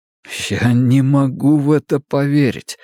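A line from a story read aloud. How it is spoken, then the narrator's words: Trembling voice. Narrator (Russian): сказал Луис дрожащим голосом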